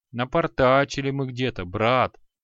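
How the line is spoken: Sigh. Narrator (Russian): вздохнул Шамшудин

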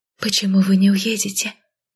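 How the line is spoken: Quiet question. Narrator (Russian): тихонько спросила молчавшая все это время Эмбер

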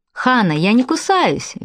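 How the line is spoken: Cheerful. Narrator (Russian): весело произносит Фред

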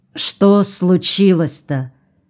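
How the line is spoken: Dejected anxious question. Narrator (Russian): Анна Павловна Ветошева, упавшим голосом, предчувствуя что-то неладное, спросила

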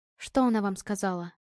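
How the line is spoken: Quiet question. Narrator (Russian): тихо поинтересовалась Ева

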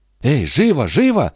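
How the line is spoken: Exclaimed. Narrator (Russian): воскликнула Сюзетта

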